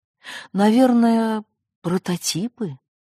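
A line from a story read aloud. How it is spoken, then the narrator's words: Dejected sighing explanation. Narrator (Russian): удрученно вздохнув, объяснил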